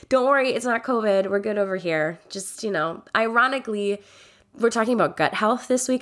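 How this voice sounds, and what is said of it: Slightly congested voice. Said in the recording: “I sound a bit congested ... came back with a good old cold”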